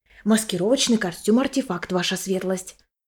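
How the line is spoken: Whisper. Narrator (Russian): Шепотом сообщил

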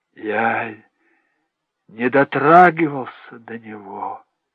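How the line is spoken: Muffled speech. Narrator (Russian): сказал Джек глухо

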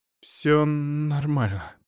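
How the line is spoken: Muttered. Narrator (Russian): пробормотала Вестра

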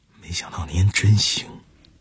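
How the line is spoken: Silent admiring mouthing. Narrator (Chinese): 关强满脸的赞叹，只用口型

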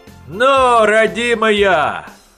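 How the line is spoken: Shout. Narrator (Russian): Крикнул Перхуша

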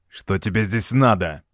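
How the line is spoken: Angry, curt. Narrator (Russian): Зло бросил Роберто

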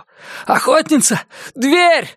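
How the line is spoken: Breathless shout. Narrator (Russian): задыхаясь, закричал он

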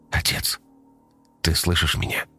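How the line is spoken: Whisper. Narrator (Russian): прошептал Коля

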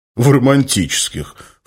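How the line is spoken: Bear's snort. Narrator (Russian): фыркнул медведь

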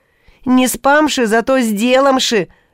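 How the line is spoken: Joyful exclamation. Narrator (Russian): радостно воскликнул Неждан

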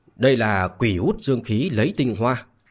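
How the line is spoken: Sighing, troubled voice. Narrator (Vietnamese): Lâm Kiều Thúc cau mày lắc đầu thở dài mà nói

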